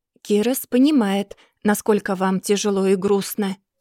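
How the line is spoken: Calm. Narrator (Russian): спокойно отвечает он

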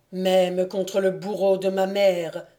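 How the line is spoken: Frenzied exclamation. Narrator (French): s'écria Évrard, aveuglé par je ne sais quelle frénésie

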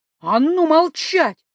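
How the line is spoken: Yelling. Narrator (Russian): заорала я

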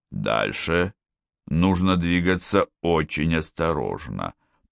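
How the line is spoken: Strange mumble under breath. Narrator (Russian): промямлил себе под нос Гуннар странно

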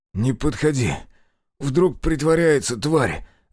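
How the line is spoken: Hoarse wheeze. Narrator (Russian): захрипел Зотов

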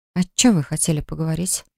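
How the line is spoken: Soft question. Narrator (Russian): спросила она тихонько

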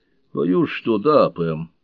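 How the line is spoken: Gloomy reply. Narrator (Russian): мрачно отозвался ее друг

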